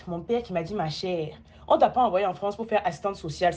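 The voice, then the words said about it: Burkinabé accent. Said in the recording (French): “Au Burkina, on dirait que je choro. Car ma voix, mon accent, ça peut aussi être celui-ci.”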